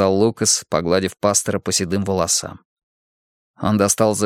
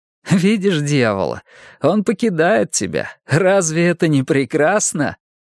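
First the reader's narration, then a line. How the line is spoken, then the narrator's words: Laughing. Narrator (Russian): смеялся Лукас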